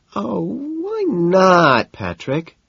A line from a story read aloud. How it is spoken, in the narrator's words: she whines